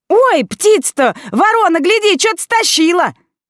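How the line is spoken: Sudden yelling. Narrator (Russian): завопили вдруг

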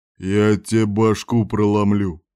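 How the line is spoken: Menacing. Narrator (Russian): сказал грозно Кирк

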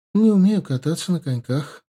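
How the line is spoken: Light wistful sigh. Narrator (Russian): с легкой, совсем неглубокой грустью вздохнула Тесс

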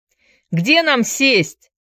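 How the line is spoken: Shouting. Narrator (Russian): крикнул кто-то

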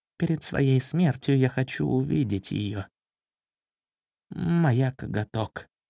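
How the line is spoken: Quiet speech. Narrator (Russian): тихо проговорил Меднобров

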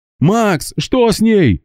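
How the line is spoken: Yelling. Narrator (Russian): заорал Гера

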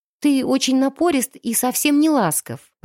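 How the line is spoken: Timid babbling. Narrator (Russian): пролепетала я

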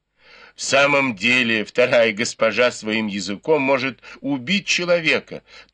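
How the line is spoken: Laughing remark. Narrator (Russian): тоже смеясь заметила Сижень

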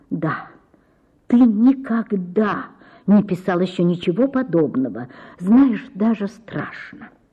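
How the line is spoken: Quiet, suppressed jealousy. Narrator (Russian): Ольга Ивановна ревновала Рябовского к картине и ненавидела ее, но говорила тихо

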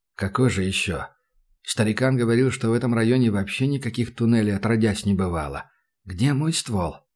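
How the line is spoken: Sudden wary mutter. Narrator (Russian): Опасливо пробормотал вдруг Санька

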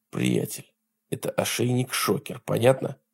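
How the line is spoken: Whisper. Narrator (Russian): прошептал он

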